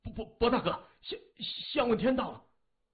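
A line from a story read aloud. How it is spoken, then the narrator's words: Urgent, breathless. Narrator (Chinese): 一名忠义帮小弟飞跑进来，满头是汗，声音急迫的说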